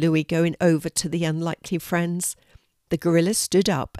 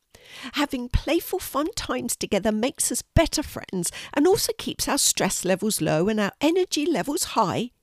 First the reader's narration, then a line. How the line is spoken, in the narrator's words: squeaked the rat